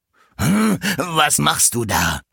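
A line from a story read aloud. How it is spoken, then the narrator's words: Angry devil shouting. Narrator (German): schrie der Teufel zornig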